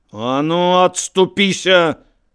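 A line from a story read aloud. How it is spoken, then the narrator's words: Roar. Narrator (Belarusian): рыкнуў Алесь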